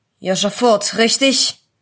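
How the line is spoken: Rough-voiced policeman asking. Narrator (German): fragte der Polizist mit einer rauen Stimme

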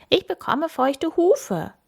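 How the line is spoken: Call out. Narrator (German): ruft Kim

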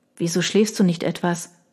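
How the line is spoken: Quiet. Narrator (German): fügte ich leise hinzu

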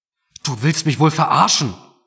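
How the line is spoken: Roaring through a splitting headache. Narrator (German): brüllte Mark jetzt, obwohl ihm dabei fast der Kopf explodierte

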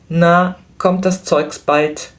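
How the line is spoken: Called toward the counter. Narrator (German): rief Flametti zum Schalter

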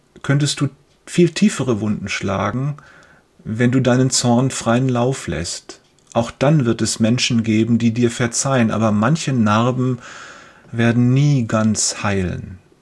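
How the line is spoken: Father continues gently. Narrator (German): fährt sein Vater fort

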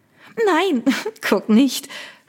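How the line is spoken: Giggling. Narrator (German): Victoria kicherte

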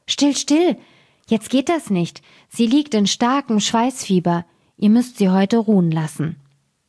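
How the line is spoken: Old woman calling. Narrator (German): rief die Alte

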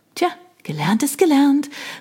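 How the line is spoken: Triumphant call. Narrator (German): rief ich triumphierend

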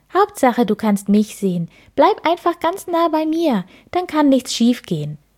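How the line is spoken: Bird calling out. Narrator (German): ruft die Mönchsgrasmücke

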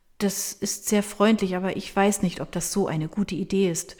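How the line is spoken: Stammering. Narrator (German): stammelt sie

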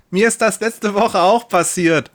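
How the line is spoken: Woman calling out. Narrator (German): ruft eine Frau

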